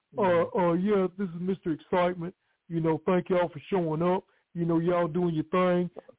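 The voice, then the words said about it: Imitates another person's voice. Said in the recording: “Did the impersonation.”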